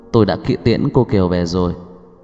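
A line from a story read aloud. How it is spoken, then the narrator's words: Quiet servant. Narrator (Vietnamese): người giúp việc nhỏ giọng nói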